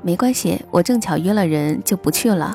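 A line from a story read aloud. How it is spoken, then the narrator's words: Faint smile, calm. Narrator (Chinese): 他只是淡淡一笑说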